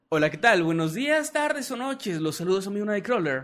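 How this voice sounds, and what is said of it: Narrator voice. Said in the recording (Spanish): “Mándeme saludo con voz de narrador”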